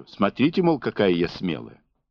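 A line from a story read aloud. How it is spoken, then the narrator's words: Deliberately sharp. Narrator (Russian): Она намеренно резко повторила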